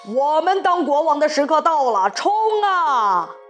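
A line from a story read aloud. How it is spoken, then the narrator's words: Loud shout. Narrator (Chinese): 田鼠普老大大喊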